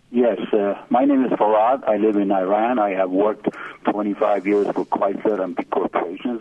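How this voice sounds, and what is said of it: Non-native English accent. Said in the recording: “you can recognize from my accent.”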